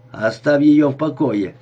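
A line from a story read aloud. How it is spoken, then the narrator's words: Angry. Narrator (Russian): сердито сказала Лулу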